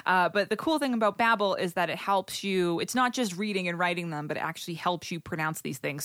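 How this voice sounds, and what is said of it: Strong Boston New England accent. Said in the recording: “I have an atrocious Boston area New England accent”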